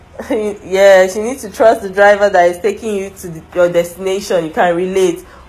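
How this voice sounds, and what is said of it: Congested voice. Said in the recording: “I have a cold. ... sorry about the coughing”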